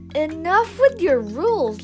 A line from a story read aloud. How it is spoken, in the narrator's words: Lindsay shouted